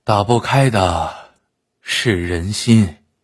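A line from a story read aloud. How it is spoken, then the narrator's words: Sighing. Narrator (Chinese): 叹了口气，说道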